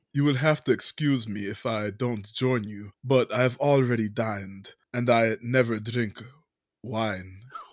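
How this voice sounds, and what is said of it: Dracula-style character voice. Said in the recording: “my impression”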